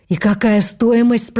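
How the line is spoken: Trembling voice. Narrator (Russian): спросил дрогнувшим голосом

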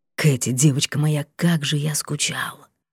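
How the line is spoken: Tense broken whisper. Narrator (Russian): напряженного прерывистого шепота

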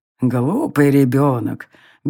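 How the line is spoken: Old woman's good-natured grumble. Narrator (Russian): беззлобно ворчала старая, но все еще сильная женщина

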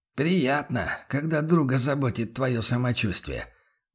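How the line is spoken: Gruff grumble. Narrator (Russian): буркнул Бруно

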